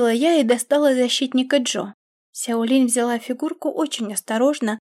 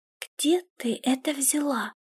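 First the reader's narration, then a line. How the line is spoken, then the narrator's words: Whispered question. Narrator (Russian): спросила она шепотом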